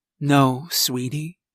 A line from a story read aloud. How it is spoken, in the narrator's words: she said softly